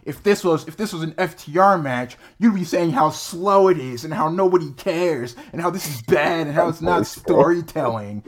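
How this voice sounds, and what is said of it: Imitates another person's voice. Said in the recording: “Was that an impression of me? ... that's how you talk ... that's one of your voices”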